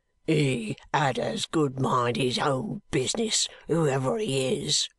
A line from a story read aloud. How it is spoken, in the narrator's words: growled the man